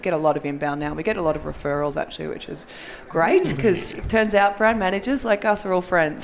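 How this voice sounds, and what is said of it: Australian accent. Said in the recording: “if you can't understand from the accent, I'm Australian.”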